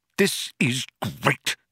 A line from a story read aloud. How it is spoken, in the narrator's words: spluttered Arthur